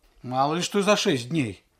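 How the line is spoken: Sharp. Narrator (Russian): резко сказал Алексей

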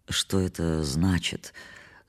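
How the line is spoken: Muffled question. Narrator (Russian): спросил я заглушенным голосом

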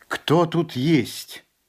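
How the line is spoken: Shouted. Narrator (Russian): Тогда он крикнул

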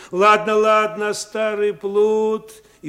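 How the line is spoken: Shouted in the face. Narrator (Russian): крикнув прямо в лицо

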